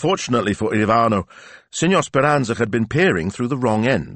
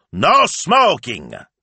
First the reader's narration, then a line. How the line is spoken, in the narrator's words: shouted through his megaphone